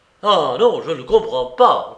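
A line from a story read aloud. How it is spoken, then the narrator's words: Shouting, pounding table. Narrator (French): criai-je en frappant de toutes mes forces sur la table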